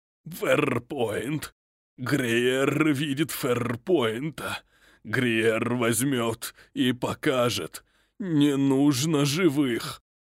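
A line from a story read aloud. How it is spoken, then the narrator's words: Repulsive guttural voice. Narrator (Russian): Омерзительным гортанным голосом произнес незнакомец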